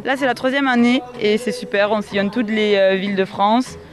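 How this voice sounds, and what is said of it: Slight southwestern French regional accent. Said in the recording (French): “Vous avez un petit accent quand même, mais c'est pas tout à fait celui de la Bigorre.”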